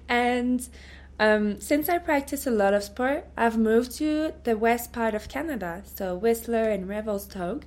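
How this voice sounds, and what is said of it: French Canadian accent. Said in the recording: “I'm from Canada, from the French part, so Quebec City. And so this is where the French accent comes from.”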